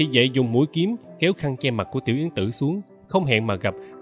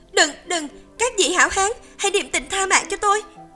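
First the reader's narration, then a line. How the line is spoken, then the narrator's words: Frightened cry. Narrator (Vietnamese): Tiểu Yến Tử sợ hãi kêu lên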